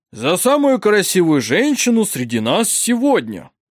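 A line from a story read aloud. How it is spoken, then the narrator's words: Loud toast. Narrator (Russian): Бургомистр громко произнес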